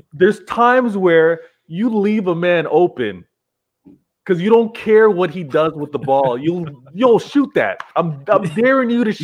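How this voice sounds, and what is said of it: North American accent. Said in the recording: “you heard it. North American accent, of course.”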